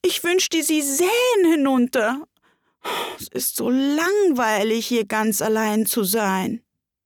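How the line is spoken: Sudden sob. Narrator (German): schluchzte Alice plötzlich auf

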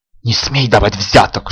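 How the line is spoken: Hissing. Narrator (Russian): шипела Искра

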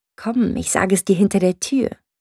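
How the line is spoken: Whispered. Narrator (German): mit einem vielsagenden Blick, der ihre zügellose Begierde verriet, flüsterte sie

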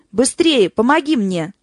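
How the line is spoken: Exclamation, doctor. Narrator (Russian): воскликнул док

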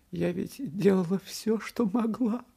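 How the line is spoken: Mother sobbing. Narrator (Russian): всхлипывала мать

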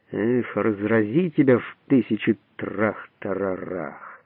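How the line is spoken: Furious swearing. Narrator (Russian): Он остервенело ругается пятиэтажным матом

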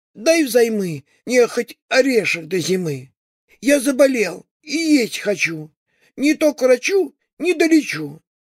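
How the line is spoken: Timid. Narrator (Russian): Сказал он робко

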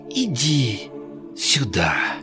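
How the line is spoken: Soft whisper, female. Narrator (Russian): тихо прошептала

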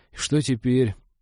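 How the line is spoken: Gloomy question. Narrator (Russian): уныло поинтересовался свояк

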